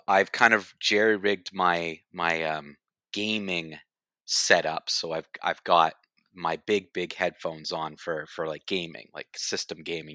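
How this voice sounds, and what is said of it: Congested-sounding voice. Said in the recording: “the way I may sound... you sound congested”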